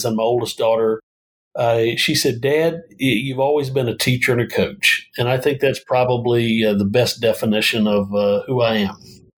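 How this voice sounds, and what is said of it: Southern US twang. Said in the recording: “there is a Southern twang in your speech that is not characteristic of Phoenix”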